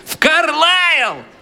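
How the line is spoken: Old women shouting. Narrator (Russian): две другие старухи прокричали

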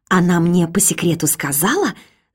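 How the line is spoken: Conspiratorial whisper. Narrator (Russian): заговорщицки прошептала Сонька

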